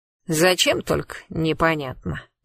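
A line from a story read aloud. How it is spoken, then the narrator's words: Grumbling. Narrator (Russian): проворчал Вася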